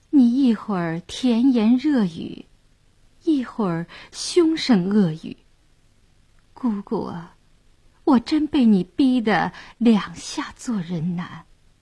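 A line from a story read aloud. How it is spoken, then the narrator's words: Dazed soft sigh. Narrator (Chinese): 倒愣了，轻叹一声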